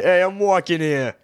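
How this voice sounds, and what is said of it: Put-on New Jersey accent. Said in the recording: “In your Jersey accent ... I don't know how to say Missouri in a Jersey accent.”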